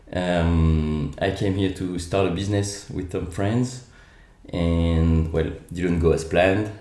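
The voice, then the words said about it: French accent. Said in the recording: “Sorry about the accent. ... I'm actually uh, Australian as well, so I'm French Australian”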